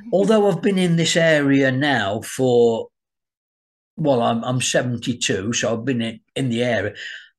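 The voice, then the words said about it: Slight Birmingham English accent. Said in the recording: “a bit of a Brahmi accent”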